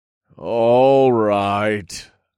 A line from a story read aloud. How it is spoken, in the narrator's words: chuckled